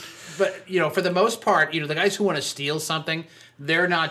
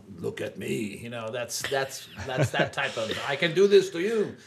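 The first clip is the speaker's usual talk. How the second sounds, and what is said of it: Mock French-sounding accent. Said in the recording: “Was that your Ukrainian accent? ... it sounded more French than Ukrainian ... That was Pepe Le Pew”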